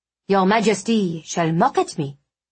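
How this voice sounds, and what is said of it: Bad put-on French accent. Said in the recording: “I said in a bad French accent”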